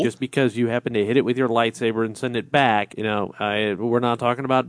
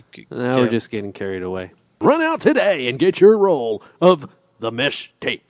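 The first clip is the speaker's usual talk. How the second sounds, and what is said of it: Radio announcer voice. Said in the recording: “That was like the radio voice.”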